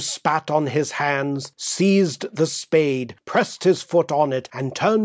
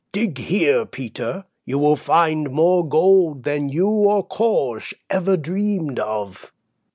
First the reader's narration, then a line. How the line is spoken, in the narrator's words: croaked the old woman in a dull voice